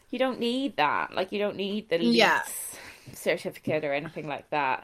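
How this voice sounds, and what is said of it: Speaking with an American accent. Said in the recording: “it's a lot of American accent today”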